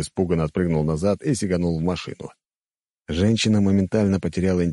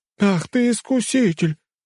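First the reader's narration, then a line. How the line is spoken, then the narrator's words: Shrieked. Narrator (Russian): взвизгнула тетка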